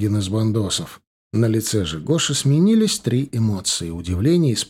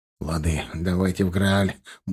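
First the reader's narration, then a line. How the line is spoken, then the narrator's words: Grumbling mutter. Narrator (Russian): буркнул он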